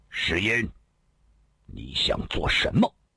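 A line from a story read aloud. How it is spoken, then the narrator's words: Sudden stern voice. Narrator (Chinese): 突然有一人厉声说道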